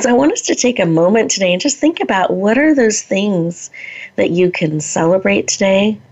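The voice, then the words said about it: Slightly scratchy voice. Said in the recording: “you might hear in my voice that my voice is a little bit scratchy today”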